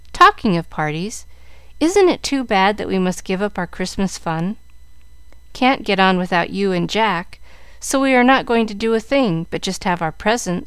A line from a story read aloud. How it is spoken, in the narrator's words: said Mary sadly